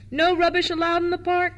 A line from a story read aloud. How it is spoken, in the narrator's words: shouted the keeper